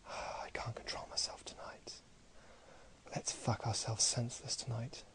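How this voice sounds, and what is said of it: Whispering. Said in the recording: “whispering in your ears”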